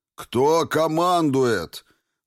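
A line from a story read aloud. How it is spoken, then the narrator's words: Loud sudden call, older man. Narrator (Russian): громко воззвал вдруг немолодой уже гвардеец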